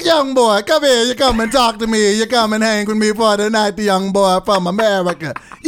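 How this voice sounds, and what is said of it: Bad imitation Jamaican accent. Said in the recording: “You have the worst Jamaican accent.”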